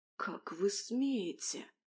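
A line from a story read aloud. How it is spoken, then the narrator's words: Whisper. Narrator (Russian): Начала я шепотом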